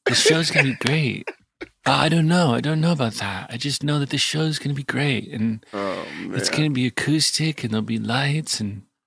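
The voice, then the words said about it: Soft-spoken MacGruber-style character voice. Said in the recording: “Why do you all of a sudden sound like a soft-spoken MacGruber? ... it turns into like a soft-spoken MacGruber ... the accent that Will does when he plays MacGruber”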